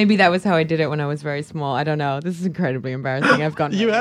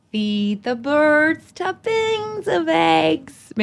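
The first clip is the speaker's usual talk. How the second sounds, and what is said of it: Singing in a put-on American accent. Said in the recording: “I'll do it in my American accent.”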